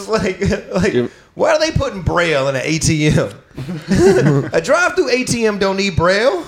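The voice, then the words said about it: Imitates another person's voice. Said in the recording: “a really good DL Hughley impression”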